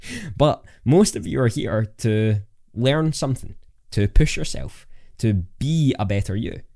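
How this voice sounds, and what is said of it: Speaks with a noticeable accent. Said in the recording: “you just like my accent”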